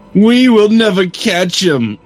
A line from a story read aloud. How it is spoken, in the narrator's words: cried Draco